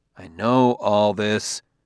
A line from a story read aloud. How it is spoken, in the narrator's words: said Bailey